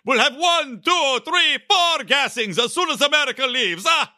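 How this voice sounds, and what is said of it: Random Count von Count-style accent. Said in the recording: “I'm just going to do a random accent here... I'm going to make him sound like Count Fun Count”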